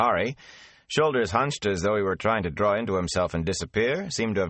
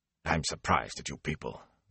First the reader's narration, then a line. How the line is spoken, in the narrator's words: Bran rumbled